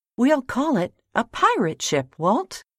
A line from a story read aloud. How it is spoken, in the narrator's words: cried Harry excitedly